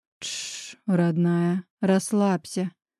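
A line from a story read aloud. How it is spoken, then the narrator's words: Whisper. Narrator (Russian): Прошептал Мирон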